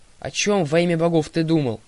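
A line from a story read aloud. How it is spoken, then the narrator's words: Grumbling. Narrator (Russian): проворчала Талия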